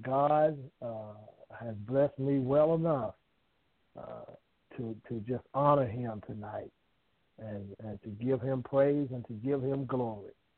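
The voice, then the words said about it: Southern US country accent. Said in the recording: “I'm just a down south country boy. Some of y'all might catch my accent. I might say something that might make you laugh at my accent”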